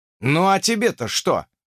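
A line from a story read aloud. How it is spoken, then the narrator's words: Snorted. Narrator (Russian): фыркнул я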